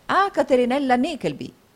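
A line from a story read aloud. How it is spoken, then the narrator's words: Three voices exclaiming together. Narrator (Italian): esclamarono gli altri tre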